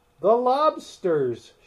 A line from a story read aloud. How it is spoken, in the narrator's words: shouted the griffin